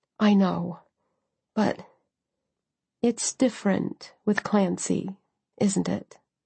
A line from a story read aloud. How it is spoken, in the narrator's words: I said quietly